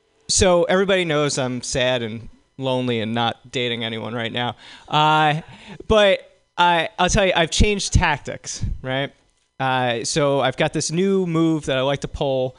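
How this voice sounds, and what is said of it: Congested voice from a cold. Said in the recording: “if I sound weird. My eustachian tubes are blocked thanks to a cold I got. So it sounds all funny out of this side.”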